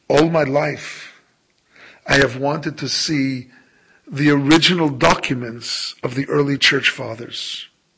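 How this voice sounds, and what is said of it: Polish accent. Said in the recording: “in a remarkably Polish accent”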